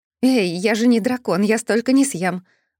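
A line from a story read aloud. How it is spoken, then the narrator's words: Exclaiming. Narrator (Russian): воскликнула я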